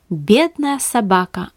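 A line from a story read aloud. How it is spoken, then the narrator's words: Plain. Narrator (Russian): ответила жена пастора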